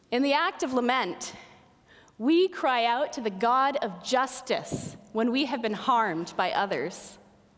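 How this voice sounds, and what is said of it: Louder, projected preaching voice. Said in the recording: “I'll talk louder ... I don't normally preach with my big girl voice.”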